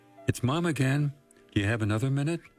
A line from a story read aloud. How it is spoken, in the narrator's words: she asked